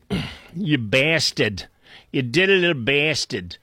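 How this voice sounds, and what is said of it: Put-on Boston accent. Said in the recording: “with my Boston accent”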